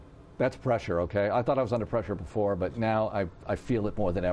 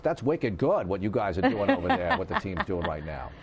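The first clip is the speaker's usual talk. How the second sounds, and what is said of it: Put-on New England accent. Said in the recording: “he's got a little bit of a New England accent”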